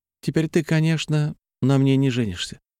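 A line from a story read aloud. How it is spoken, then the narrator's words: Sad but confident. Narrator (Russian): грустно, но вполне уверенно констатировала подруга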